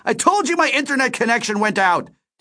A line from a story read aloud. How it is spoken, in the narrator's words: Delio shouted